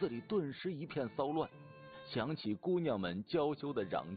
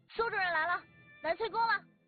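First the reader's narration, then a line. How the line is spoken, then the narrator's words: Drawn-out shout. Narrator (Chinese): 酸杏拉长声音喊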